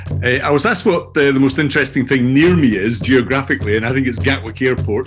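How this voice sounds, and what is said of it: Scottish accent. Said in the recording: “you can probably tell already that I have a Scottish accent, which is where I'm from originally”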